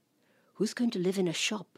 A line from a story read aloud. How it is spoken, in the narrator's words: softly, gently, I asked